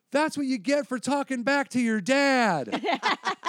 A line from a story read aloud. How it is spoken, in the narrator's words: Yelled